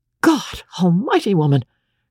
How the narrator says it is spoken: cried the young medico

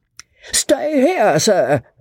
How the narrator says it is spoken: roared out Joss

